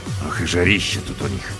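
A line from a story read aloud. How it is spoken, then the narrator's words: Grumbling. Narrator (Russian): проворчал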